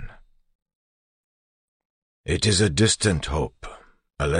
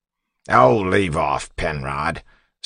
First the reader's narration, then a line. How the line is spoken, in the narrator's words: Set snapped